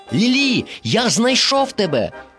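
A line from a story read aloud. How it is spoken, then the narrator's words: Joyful exclamation. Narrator (Ukrainian): радісно вигукнув Дорі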